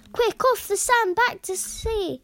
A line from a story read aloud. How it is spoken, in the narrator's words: cried the snail